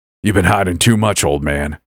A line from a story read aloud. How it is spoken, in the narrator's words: the hunter growled